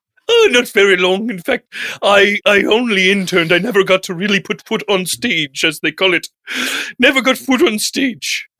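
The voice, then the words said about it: Intense, hoity-toity posh theatrical voice. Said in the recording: “you're coming off a little intense ... a little hoity-toity, a little headmaster, headmaster-ish”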